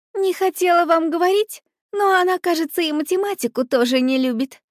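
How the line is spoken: Casual, innocent little voice. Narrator (Russian): как бы, между прочим, заявила невинным голоском Вика

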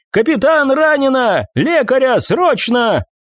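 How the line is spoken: Shouting. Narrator (Russian): Ортис прокричала

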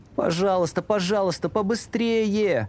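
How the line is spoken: Children pleading. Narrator (Russian): взмолились ребята

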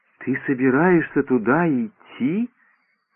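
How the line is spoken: Muttered under breath, to himself. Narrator (Russian): вполголоса пробормотал, обращаясь к самому себе

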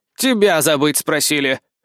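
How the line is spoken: Smirking grunt. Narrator (Russian): хмыкнул парень

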